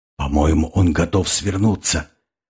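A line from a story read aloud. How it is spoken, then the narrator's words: Whisper. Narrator (Russian): шепотом сказал Тимур Алк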